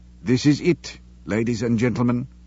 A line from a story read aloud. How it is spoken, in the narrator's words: Sean said quietly